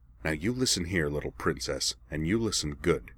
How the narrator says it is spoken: he growled, all the oily charm gone from his voice

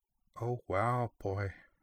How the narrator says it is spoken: Yudachi murmured, her green eyes wide, as if she had just witnessed the unveiling of some hitherto unsuspected cosmic truth

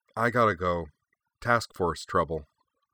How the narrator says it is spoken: with a sigh, she said

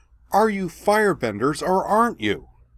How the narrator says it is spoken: shouted

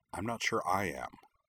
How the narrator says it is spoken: she added under her breath

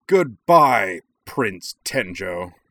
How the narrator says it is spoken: He bellowed

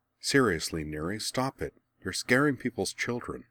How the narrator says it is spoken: muttered

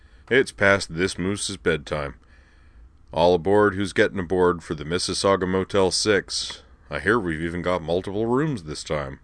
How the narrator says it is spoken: said Moose with a yawn you could have stuffed an entire birthday cake into

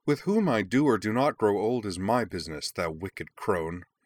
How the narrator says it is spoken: Umi spat back

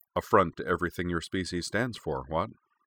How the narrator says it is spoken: he said dryly

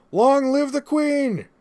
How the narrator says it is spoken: she added that at the top of her lungs

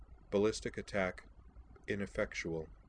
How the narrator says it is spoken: DeCapra murmured in that same flat voice

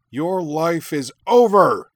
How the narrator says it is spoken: Shuten roared

